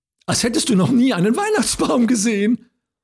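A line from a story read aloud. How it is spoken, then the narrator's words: Giggling child. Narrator (German): kicherte die Kleine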